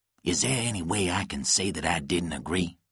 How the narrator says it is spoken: Lonnie whispered to Nicholas

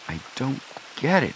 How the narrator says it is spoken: Joe muttered

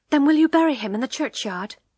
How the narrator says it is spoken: she asked quickly

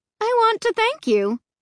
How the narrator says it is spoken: she said in a cheery voice

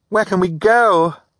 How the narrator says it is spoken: Violet cried

